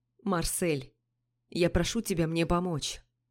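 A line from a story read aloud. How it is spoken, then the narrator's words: Quiet. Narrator (Russian): так же тихо сказал Пижон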